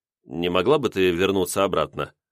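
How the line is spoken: Calm request. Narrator (Russian): спокойно попросил я

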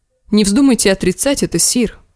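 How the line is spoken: Sharp interruption. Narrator (Russian): резко вмешался сэр Баристон

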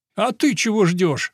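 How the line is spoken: Indignant question. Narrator (Russian): возмущенно поинтересовался Паулина

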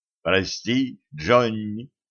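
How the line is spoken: Mournful mutter. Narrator (Russian): с искренней скорбью пробормотал Кощей

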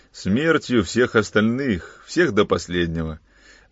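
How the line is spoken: Gloomy. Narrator (Russian): мрачно сказал Кранц

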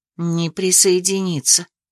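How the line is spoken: Quiet. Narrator (Russian): тихонько сообщила Мира

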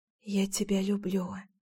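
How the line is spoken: Soft whisper. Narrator (Russian): тихонько шепнула

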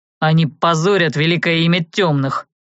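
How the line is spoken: Angry grumble. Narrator (Russian): зло буркнул Влад

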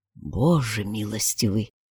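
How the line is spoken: Numb-lipped whisper. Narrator (Russian): онемевшими губами прошептал Эдди

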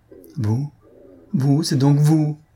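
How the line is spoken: Stammering. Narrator (French): balbutia-t-il

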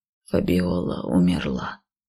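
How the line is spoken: Soft. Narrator (Russian): мягко произнес

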